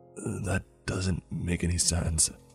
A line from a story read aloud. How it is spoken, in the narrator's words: I said in a low voice between some coughs